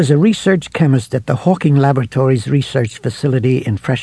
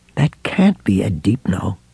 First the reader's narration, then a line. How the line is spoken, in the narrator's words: Ralph murmured